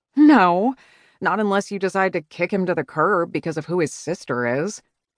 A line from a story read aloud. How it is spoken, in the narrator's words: scoffed